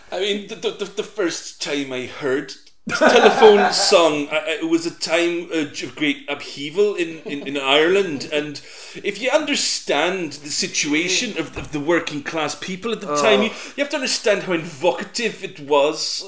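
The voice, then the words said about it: Put-on accent. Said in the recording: “Oh, God, that accent. I fucking hate that, man.”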